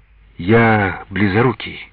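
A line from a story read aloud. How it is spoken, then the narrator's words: Dejected voice. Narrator (Russian): ответил упавшим голосом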